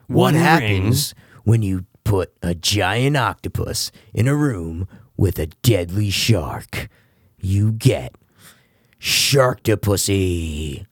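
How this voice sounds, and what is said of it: Dramatic movie trailer voice. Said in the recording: “a good ... Trailer voice.”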